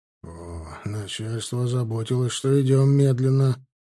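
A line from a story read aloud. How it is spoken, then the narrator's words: Grumbling. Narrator (Russian): проворчал Назимов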